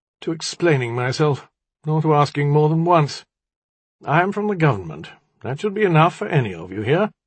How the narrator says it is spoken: the young man said, his voice was tired

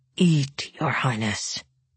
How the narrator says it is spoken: Tolia bent his head to Isaac's ear and muttered

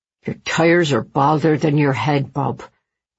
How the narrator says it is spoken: he muttered

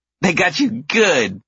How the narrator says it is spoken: laughs the older one

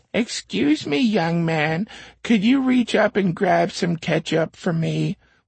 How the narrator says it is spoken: She said in a weak, scratchy voice

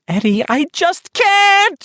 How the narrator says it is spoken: she wailed

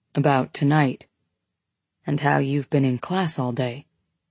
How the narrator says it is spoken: he says softly, his breath caressing my neck

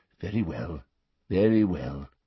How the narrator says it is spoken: said the old wizard gently

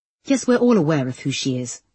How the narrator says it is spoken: snapped the solicitor

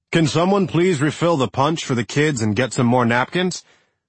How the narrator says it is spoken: one of the chefs called out

